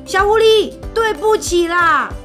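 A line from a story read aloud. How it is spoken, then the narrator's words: Loud. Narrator (Chinese): 大毛熊 大声地说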